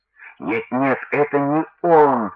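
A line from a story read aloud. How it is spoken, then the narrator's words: Groaning chorus. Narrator (Russian): застонали апостолы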